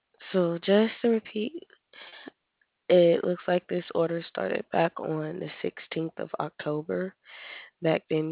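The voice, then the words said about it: Very soft, congested voice. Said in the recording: “You're speaking so softly that I can't hear you. ... I have a cold and sinus pressure, so this is as loud as I can go.”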